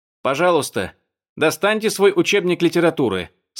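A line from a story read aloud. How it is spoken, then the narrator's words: Loud voice. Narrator (Russian): сказал громким голосом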